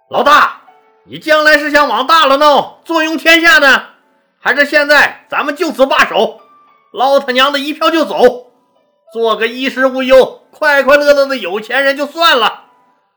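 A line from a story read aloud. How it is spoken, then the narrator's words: Loud. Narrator (Chinese): 樊哙大声说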